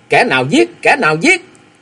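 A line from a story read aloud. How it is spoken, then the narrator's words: Loud shout. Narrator (Vietnamese): quát lớn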